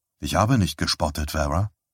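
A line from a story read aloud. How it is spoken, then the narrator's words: Softly. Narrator (German): sagte er leise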